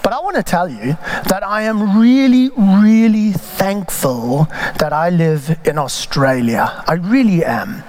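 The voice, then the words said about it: African-influenced English accent. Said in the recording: “you can probably tell from my accent that, in fact, I'm an immigrant. ... I was born in Africa”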